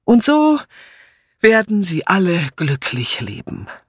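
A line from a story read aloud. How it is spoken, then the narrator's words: Called out. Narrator (German): rief nun Patrick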